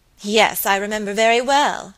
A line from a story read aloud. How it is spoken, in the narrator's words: answered Lucy Audley, with a bitter laugh